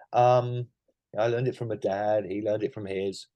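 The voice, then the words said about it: Put-on American accent. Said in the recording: “in an American accent, obviously.”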